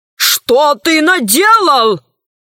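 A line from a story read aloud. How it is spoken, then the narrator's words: Exclamation. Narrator (Russian): воскликнул профессор Селезнев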